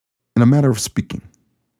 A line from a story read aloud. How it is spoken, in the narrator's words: Colin said